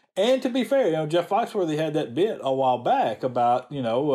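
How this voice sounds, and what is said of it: Usual voice. Nothing is said of it.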